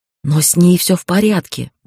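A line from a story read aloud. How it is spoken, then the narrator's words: Breathed out. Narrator (Russian): выдохнула я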